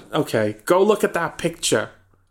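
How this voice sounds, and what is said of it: Nasal high-pitched imitated voice. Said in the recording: “do a David Lynch impression ... nasally, high-pitched ... That's not bad.”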